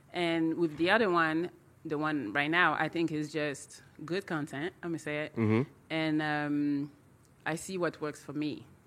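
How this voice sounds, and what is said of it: Speaks with a noticeable accent. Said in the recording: “I see people like my accent”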